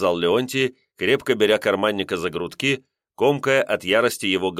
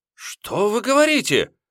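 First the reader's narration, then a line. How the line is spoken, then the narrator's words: Feigned alarmed exclamation. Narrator (Russian): воскликнул, нарочито сделав испуганным лицо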